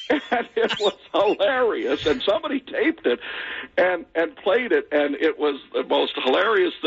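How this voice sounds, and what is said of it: Usual voice. Nothing is said of it.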